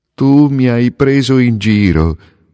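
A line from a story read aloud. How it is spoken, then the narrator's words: Young swallow shouting. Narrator (Italian): gridò il rondinotto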